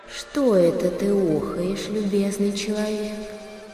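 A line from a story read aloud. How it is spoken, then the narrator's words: Old man asking gently. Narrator (Russian): старик с длинной седой бородой и спрашивает ласковым голосом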